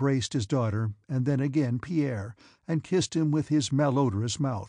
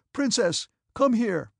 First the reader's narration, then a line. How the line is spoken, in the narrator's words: he shouted